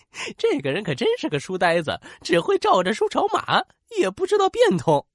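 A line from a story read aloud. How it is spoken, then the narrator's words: Amused murmuring onlookers. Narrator (Chinese): 围观的人忍不住笑着小声议论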